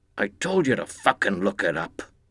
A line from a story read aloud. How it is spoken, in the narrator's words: One of them muttered